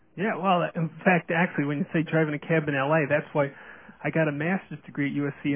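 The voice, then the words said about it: New York accent. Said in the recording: “You can still hear my accent... I come from New York... with this accent”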